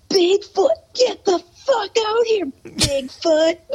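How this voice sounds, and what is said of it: Imitates another person's voice, screaming. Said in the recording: “I have like impersonations of him ... and he'd scream”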